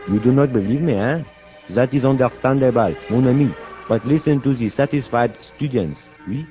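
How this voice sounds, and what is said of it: Put-on French accent. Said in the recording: “speak English with a charming, authentic French accent”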